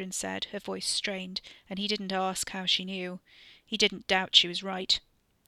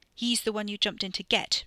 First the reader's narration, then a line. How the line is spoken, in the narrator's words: Ricky snapped, the cold prey feeling giving way to the other thing, the more familiar sensation of burning